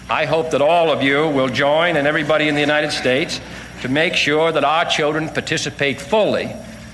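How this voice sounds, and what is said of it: Massachusetts accent. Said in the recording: “As a Massachusetts native myself, that accent really takes me back”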